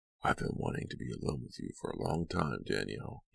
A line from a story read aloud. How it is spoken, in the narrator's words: he whispered